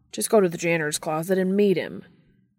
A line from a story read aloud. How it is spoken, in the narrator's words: Dean grumbled at the TV screen